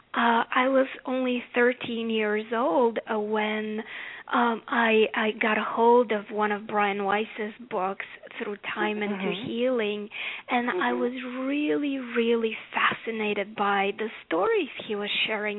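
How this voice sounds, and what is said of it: Bulgarian accent. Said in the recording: “As you can tell by my accent, I didn't grow up here in America. I grew up in Bulgaria.”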